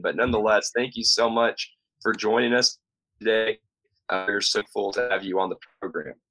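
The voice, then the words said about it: Scratchy, slightly off voice. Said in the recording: “my voice is a little off ... the scratchy sound of my voice”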